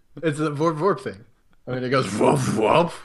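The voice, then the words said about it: Cowardly Lion cartoon voice impression. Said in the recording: “your Scooby-Doo impression ... that's the Cowardly Lion impersonation”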